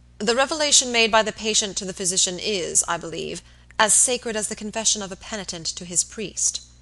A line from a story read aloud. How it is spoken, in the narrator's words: Robert asked gravely